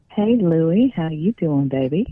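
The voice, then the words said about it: Sultry, seductive voice. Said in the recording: “we got the sexy voice going on now”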